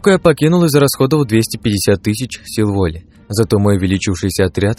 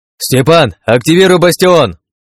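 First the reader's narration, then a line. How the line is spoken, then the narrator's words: Shout. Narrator (Russian): крикнул я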